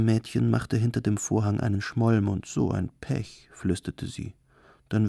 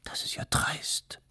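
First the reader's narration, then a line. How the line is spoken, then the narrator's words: Hissed. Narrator (German): zischte die Schwarze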